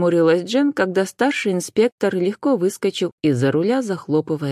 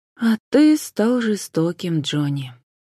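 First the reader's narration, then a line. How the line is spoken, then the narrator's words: Sighing. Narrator (Russian): вздохнула Джен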